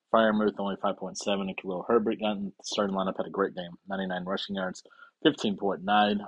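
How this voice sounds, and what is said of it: Strained, failing voice. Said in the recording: “my voice is about to fail”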